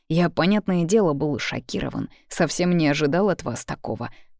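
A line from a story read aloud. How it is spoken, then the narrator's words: Male muttering. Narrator (Russian): бормочет он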